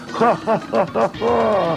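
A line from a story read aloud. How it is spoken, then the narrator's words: Laughing. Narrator (Russian): Вновь засмеялись чистые квинты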